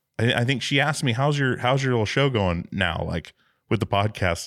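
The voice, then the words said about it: Radio voice. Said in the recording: “you also have a radio voice”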